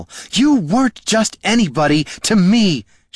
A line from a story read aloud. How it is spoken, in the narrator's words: she sobbed